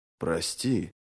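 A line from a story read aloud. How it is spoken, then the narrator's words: Mumbled apology. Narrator (Russian): Пробормотал он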